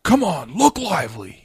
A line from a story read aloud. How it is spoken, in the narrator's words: he yelled